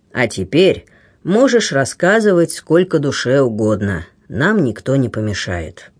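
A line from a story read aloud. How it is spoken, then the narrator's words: Very calm. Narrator (Russian): самым спокойным тоном сказал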